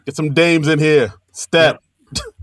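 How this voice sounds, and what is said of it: Imitates another person's voice. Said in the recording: “That's my Lauren impression ... Flawless Lauren Michaels impression”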